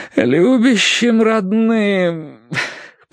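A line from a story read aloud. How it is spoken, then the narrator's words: Groaning. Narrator (Russian): простонал Терренс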